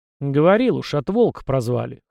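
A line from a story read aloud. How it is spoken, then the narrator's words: Displeased grunt. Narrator (Russian): хмыкнул казак, явно не очень довольный поворотом разговора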